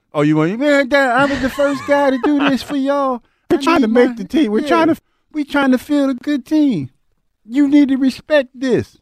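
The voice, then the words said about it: Imitates another person's voice. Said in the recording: “do your Howie impression ... That was a little better.”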